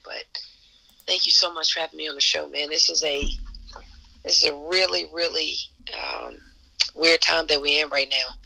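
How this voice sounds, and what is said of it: Hoarse voice. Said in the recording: “I'm a little hoarse ... I'm a little hoarse from that game”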